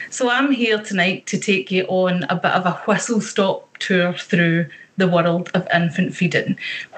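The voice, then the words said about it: Scottish Ayrshire accent. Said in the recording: “my lovely Ayrshire accent”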